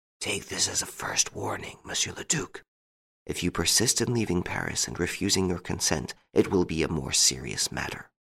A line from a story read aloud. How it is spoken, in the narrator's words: one of the men said to him in a low voice